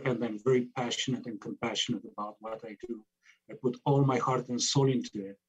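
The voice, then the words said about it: Speaks with a noticeable accent. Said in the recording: “I love your accent and it's beautiful”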